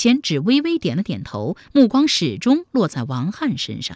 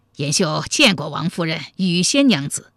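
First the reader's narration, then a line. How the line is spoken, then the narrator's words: Smiling. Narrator (Chinese): 武延秀笑着说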